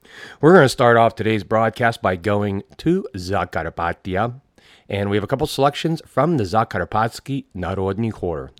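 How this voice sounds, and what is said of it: Congested, stuffed-up voice. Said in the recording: “I sound a little stuffed up,... All the allergies”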